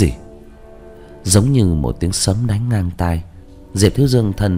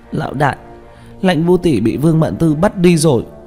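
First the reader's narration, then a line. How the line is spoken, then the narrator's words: Crying. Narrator (Vietnamese): Tranh Tử khóc lóc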